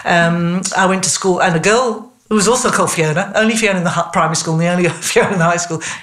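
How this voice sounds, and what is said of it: English accent. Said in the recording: “You probably gather from my accent ... I was in England”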